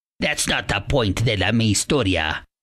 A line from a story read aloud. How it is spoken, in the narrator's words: replied Grandpa somewhat gruffly